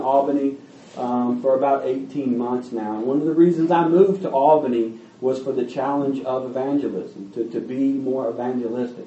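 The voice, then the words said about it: Kentucky Southern accent. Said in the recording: “The accent probably gives me away. I'm from Kentucky, born and raised.”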